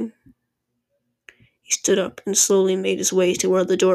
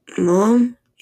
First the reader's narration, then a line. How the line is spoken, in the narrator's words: called in a shaky voice